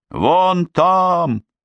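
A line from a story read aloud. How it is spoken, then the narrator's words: Shout. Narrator (Russian): закричала Герт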